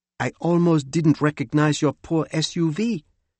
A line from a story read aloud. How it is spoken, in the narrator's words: she said in her lovely accent